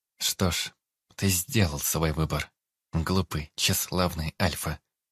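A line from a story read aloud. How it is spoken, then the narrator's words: Calm young woman. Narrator (Russian): спокойно сказала девушка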